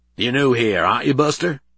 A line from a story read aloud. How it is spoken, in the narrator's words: he snarled